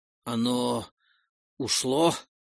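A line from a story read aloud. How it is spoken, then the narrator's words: Hoarse voice. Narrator (Russian): раздался хриплый, но все еще узнаваемый голос Утмара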